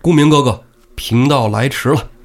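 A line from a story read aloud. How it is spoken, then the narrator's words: Calling out. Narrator (Chinese): 公孙胜叫了一声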